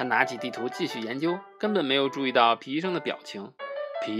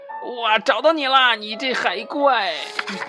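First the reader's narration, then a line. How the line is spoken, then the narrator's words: Shout. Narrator (Chinese): 大喊道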